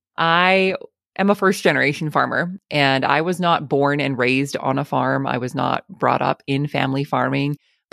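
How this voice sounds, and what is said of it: Canadian accent. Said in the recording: “southern Alberta, Canada, if you pick up on the accent.”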